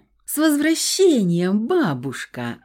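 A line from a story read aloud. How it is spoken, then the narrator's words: Joyful exclamation. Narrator (Russian): радостно воскликнула Стасичка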